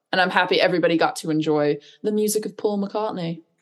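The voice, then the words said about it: Bad put-on British accent. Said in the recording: “That's my horrible British accent for the day.”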